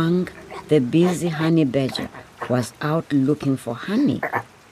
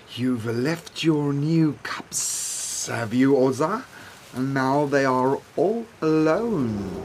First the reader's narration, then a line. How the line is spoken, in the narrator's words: he hissed